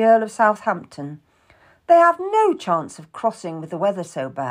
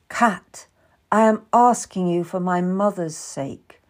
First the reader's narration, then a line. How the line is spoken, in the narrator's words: Catherine said softly